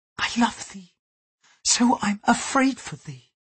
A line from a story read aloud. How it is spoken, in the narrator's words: whispered, using Latin